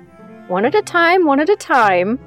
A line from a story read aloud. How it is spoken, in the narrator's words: laughed